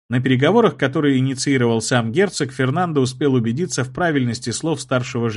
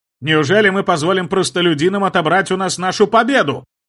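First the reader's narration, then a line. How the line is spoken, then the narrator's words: Loud shouting. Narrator (Russian): Громко кричал принц Адриан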